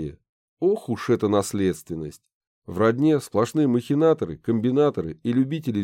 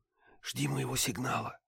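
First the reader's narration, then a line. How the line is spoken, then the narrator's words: Whisper. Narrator (Russian): прошептала Банши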